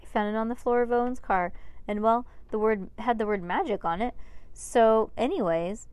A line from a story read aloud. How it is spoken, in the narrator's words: stammered, embarrassed